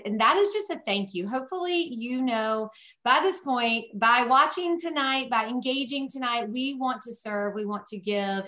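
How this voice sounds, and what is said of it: Southern twang accent. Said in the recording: “my Southern twang”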